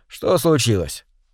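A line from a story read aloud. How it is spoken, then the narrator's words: Dry, sleepy. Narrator (Russian): сухо и сонно ответил Вячеслав, проснувшись от звонка минуту назад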